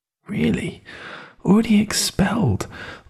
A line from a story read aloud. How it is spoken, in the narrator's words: I muttered her words over to myself